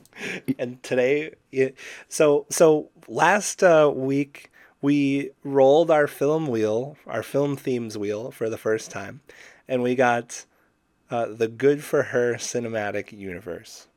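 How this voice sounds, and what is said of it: Raspy, sick-sounding voice. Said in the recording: “am sick, so I'm sorry if I sound sort of raspy. So hopefully I sound like a wise old storyteller.”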